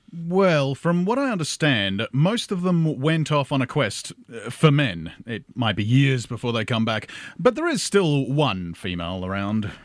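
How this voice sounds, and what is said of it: Australian accent. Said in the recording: “you speak English, with an Australian accent.”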